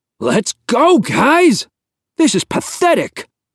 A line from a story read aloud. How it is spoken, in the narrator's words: Rhodes yelled